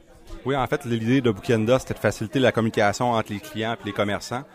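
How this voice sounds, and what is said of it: Québécois French accent. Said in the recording (French): “vous êtes donc Québécois, on peut commencer à le deviner avec votre accent”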